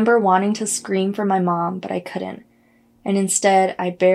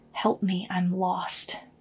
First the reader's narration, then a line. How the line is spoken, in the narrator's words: the white shape began whispering in a quiet man's voice